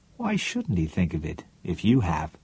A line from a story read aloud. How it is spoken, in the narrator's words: Then warmly